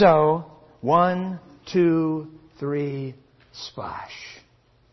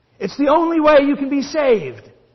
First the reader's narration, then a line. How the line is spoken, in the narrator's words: Jonah cried